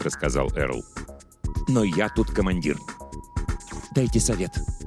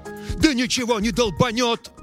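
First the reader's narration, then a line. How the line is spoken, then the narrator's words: Yelling. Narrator (Russian): заорал Эрл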